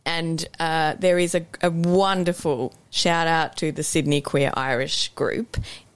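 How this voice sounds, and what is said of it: Australian accent. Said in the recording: “You can tell I have an Aussie accent.”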